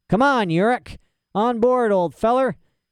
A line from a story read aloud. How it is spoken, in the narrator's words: yelled Lee Scoresby